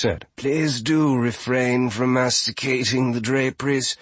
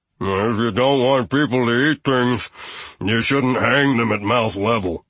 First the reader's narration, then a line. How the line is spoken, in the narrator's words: Gustav grumbled